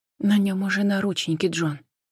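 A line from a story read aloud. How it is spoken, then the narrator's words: Quiet, gentle. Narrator (Russian): тихо проговорила Джен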